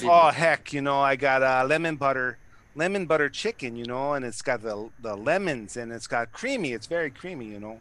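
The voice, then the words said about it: Put-on Fargo Minnesota accent. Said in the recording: “Do it in the Fargo voice... I kind of lost the accent. I haven't got to work on that accent a little bit”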